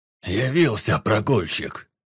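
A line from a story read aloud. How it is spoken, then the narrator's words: Grumbled. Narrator (Russian): пробурчал Гриан Борд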